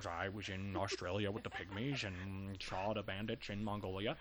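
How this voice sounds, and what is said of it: Partial put-on accent, then dropped. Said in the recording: “That was really good for a second. You were leaning into a JFK accent, but then you reeled it back.”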